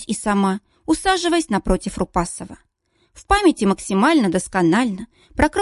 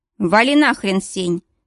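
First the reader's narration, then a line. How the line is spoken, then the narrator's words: Loud voice. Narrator (Russian): достаточно громко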